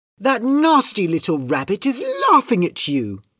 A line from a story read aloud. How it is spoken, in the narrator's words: cried Kitty